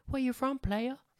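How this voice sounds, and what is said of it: Southern accent, imitates another person's voice. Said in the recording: “My impression of Ralphie May doing a bit ... He's more like a Southern”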